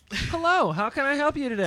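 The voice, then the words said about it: Polite customer service voice. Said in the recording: “My customer service voice might be a really good white voice.”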